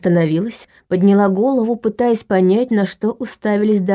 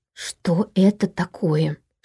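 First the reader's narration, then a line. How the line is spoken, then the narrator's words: Whispered repetition. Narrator (Russian): шепотом повторила Катя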